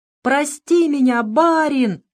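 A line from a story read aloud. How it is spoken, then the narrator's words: Shouting. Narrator (Russian): кричал он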